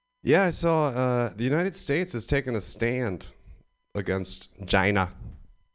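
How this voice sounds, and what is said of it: Imitates another person's voice, not very good. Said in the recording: “my Donald Trump impression. Not very good. Not very good.”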